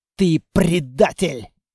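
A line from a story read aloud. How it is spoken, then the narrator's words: Growl. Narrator (Russian): прорычал Толяныч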